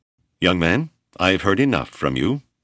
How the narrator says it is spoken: Hawksworth said stiffly

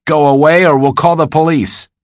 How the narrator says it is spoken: somebody shouted

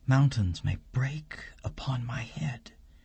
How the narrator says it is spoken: whispers to herself

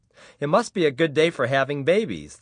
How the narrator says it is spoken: the receptionist said cheerfully

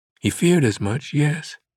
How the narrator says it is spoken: Catherine replied, her voice frail and emotional

